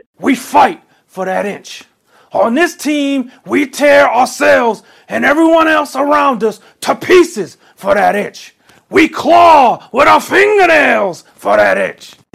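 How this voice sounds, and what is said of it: Good impression of another person's voice. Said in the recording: “does an Al Pacino impression, like a good Al Pacino impression”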